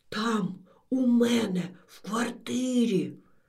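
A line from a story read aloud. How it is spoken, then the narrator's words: Old woman's whispered assurance. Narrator (Ukrainian): тепер уже чомусь пошепки запевнила баба Стефа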